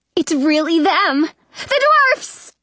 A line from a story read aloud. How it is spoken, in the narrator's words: yell